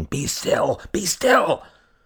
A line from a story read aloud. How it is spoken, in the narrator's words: The woman cried out, exasperated at Kay's struggles